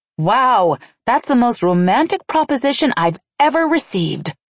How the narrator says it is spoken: I snapped sarcastically

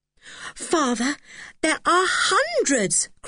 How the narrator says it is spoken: cried George

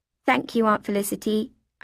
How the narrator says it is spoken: I said

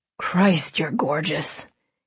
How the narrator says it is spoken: he breathed

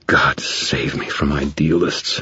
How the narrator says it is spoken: Thomas muttered

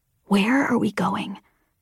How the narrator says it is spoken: I asked Embot, barely whispering so the shuttle's driver couldn't overhear

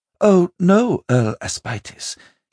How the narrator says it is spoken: she said breathlessly

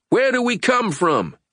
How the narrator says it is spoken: Edmund yelled

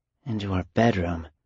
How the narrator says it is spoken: Carmen murmured

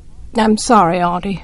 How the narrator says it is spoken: I muttered

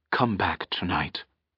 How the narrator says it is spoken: she whispered so softly that only he could hear

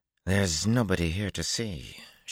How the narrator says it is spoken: she growled

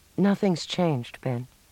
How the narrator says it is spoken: she heard herself say coolly

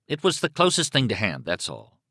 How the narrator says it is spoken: he said testily

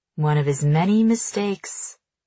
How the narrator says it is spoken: John muses, his voice dreamy and far away

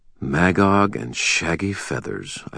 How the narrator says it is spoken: I muttered

